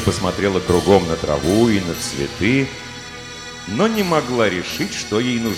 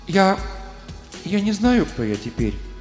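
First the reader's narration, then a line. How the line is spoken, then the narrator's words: Timid female voice. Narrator (Russian): робко проговорила она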